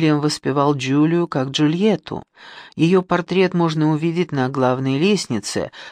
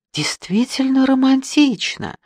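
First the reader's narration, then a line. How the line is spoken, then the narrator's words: Tender chirping voice. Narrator (Russian): своим нежным голоском прощебетала миссис Андерхилл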